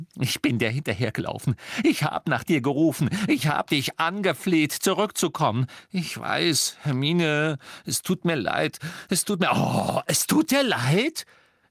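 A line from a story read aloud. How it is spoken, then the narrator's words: Shrill uncontrolled laughter. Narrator (German): Sie lachte ein schrilles, unbeherrschtes Lachen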